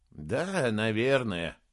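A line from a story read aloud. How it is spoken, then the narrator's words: Grumbling. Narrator (Russian): проворчал Саймон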